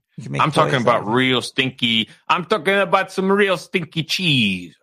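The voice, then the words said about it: Put-on French accent. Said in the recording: “That's a good French accent, right?... your French impersonation”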